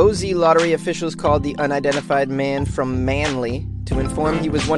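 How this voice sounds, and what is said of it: Usual voice. Nothing is said of it.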